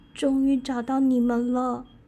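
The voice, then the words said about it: Quiet, weak, faint voice. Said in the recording (Chinese): “小声且微弱的说着”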